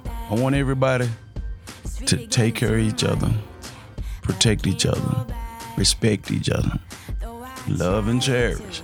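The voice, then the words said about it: Hoarse voice. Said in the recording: “my voice is not up to par. ... I'm kind of hoarse.”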